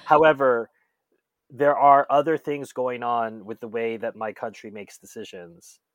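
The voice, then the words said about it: American accent. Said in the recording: “Listen to this accent. I am an American, right?”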